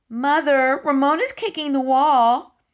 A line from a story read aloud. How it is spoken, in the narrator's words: cried Tattletale Beeza